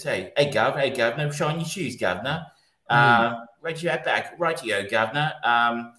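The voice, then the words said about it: Put-on Cockney accent. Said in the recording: “standard Cockney Guy Ritchie accent”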